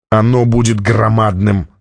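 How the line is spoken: Groaning. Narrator (Russian): застонал Джабба

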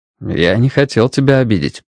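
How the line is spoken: Calm voice. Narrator (Russian): спокойно продолжал Страйк

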